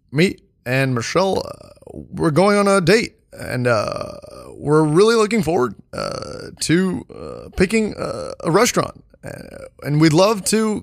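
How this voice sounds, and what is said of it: Imitates another person's voice. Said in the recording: “your Barack impression ... No, it's really bad.”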